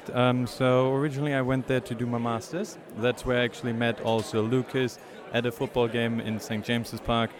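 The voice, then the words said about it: German accent. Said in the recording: “originally from a little place near Cologne in Germany ... You can tell by the accent”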